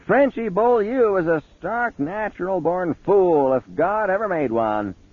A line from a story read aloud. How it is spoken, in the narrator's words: Aunt Evie hollered